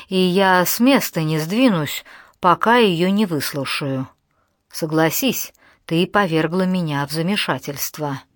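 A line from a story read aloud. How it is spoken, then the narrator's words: Calm reply. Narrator (Russian): спокойно отозвался принц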